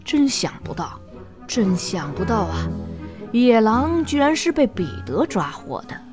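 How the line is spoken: Old man murmuring. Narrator (Chinese): 祖父喃喃地说着

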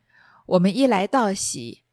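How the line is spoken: Group laughing. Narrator (Chinese): 凤姐同邢夫人、王夫人、宝钗等都来笑道

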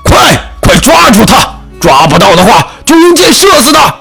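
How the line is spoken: Loud roar. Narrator (Chinese): 王爷大声咆哮道

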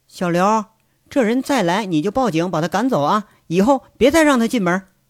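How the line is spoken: Uneasy sighing call. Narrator (Chinese): 田伯母……叹了口气，心神不定的……喊了一句

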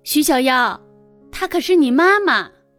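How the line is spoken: Shouting. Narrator (Chinese): 冷翠大叫

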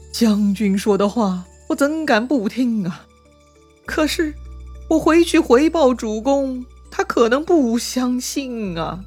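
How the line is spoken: Sighing, troubled. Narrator (Chinese): 纪灵叹了口气，苦恼地说

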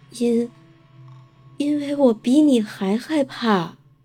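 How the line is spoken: Monster whispering. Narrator (Chinese): 怪物小声的回答说

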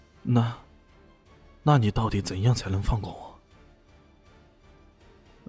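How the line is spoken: Frightened trembling voice. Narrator (Chinese): 那万世浩已经战战兢兢的颤声道

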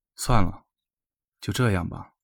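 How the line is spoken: Low voice. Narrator (Chinese): 他低声说

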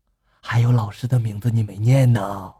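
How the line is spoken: Whisper in ear. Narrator (Chinese): 他伏在他耳边轻声的说道

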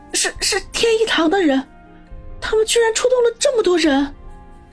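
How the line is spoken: Trembling voice. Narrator (Chinese): 尤其是后者，声音发颤的说道

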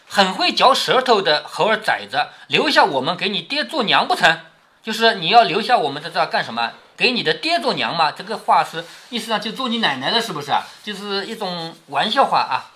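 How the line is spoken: Quiet, teasing scold. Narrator (Chinese): 尤二姐便悄悄地咬牙含笑骂道

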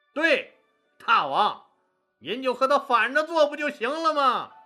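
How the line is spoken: Loud. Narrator (Chinese): 韩信大声说

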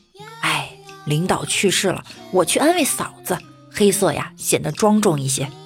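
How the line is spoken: Sighing. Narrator (Chinese): 暗夜叹了一声

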